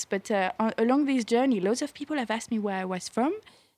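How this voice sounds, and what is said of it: French accent. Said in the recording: “I have an accent. ... I'm French ... I've got a weird accent to American ears. ... I feel like you are very French. ... You have a beautiful voice, too.”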